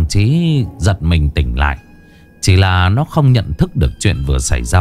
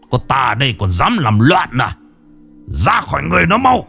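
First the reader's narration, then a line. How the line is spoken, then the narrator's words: Sharp shout. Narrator (Vietnamese): miệng quát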